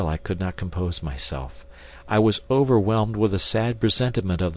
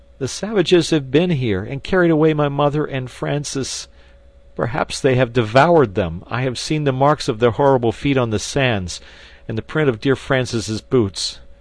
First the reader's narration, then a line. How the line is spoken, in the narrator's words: he sobbed out